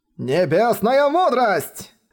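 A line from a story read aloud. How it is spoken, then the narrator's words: Shouted again. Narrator (Russian): В третий раз закричал он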